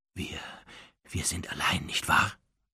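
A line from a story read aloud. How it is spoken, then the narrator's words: Quiet question. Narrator (German): fragte Narzissa leise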